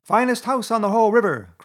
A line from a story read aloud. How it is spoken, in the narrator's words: cried Toad, boisterously